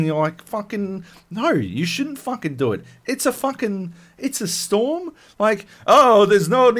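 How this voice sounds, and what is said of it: Usual voice. Nothing is said of it.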